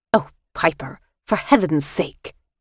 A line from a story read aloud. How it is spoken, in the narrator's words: she snapped